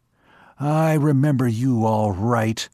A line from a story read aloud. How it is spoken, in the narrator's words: He said hoarsely